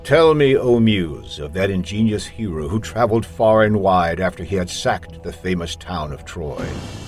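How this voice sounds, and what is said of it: Serious voice-actor narration. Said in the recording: “to demonstrate what I can do as a serious voice actor, I'm going to read the first chapter of Homer's Odyssey”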